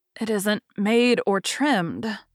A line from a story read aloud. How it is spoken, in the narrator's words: sighed Meg faintly, for a sudden recollection of the costs still to be incurred quite overwhelmed her